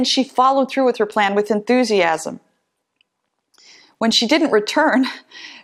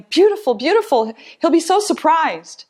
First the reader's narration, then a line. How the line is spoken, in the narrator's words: With revenge in her eyes, she smiled and exclaimed